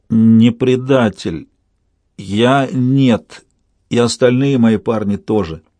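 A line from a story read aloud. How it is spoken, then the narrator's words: Strained, forced out. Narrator (Russian): он выдавил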